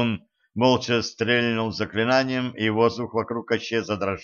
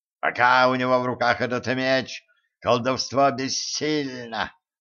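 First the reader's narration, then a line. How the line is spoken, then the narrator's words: Growl. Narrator (Russian): рыкнул Майлз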